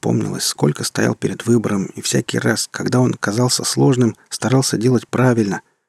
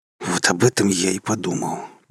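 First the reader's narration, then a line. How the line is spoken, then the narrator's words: Hissing through teeth. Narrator (Russian): прошипел сквозь зубы ваш покорный слуга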